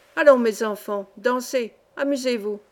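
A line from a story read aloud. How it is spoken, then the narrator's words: Thundering voice. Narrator (French): disait le capitaine d'une voix de tonnerre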